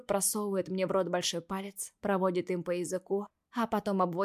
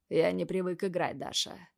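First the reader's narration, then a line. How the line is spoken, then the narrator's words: Hoarse voice. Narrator (Russian): говорит уже хриплым голосом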